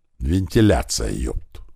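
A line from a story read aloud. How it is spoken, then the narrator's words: Grumbled. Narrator (Russian): буркнул Большой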